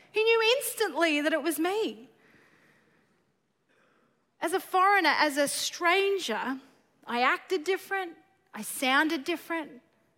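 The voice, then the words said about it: Australian accent. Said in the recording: “the only person, that I know has an Australian accent”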